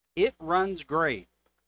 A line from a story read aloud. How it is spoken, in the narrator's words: the seller said